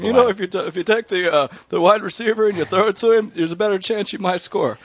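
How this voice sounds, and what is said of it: Imitates another person's voice. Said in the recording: “good impersonation”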